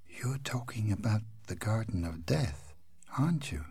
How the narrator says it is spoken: She whispered

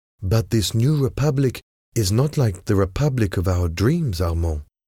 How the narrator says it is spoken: Lady Marguerite responded in a sad, quiet voice

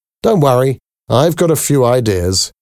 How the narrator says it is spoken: he laughed

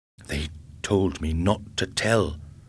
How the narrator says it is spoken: mumbled

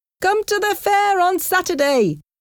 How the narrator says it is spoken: shouted Jimmy

